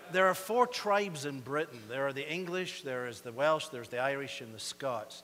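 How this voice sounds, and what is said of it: Slight British Isles accent, fast. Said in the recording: “I do have a bit of an accent. Sometimes people tell me I speak a bit fast ... everybody hears me. They think I'm an Irishman. They hear an accent.”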